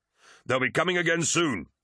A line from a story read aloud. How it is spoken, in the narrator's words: shouted Tarvitz